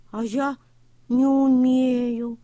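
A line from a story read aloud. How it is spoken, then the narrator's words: Sad reply, tractor. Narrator (Russian): печально ответил трактор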